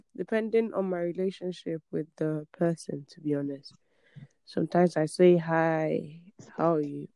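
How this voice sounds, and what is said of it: Sleepy, just-woken-up voice. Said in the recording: “excuse my voice because the time zone is like 8:56 a.m. and I'm still sleeping”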